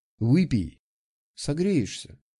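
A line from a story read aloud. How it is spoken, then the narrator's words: Softly. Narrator (Russian): мягко сказала Валентин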